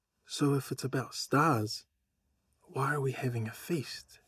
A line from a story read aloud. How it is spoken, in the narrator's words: asked quietly